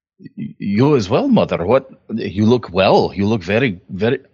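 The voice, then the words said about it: Put-on accent. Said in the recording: “I've gotten too used to that accent.”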